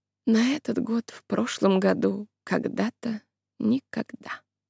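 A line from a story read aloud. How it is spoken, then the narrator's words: Purring. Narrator (Russian): промурлыкала Айза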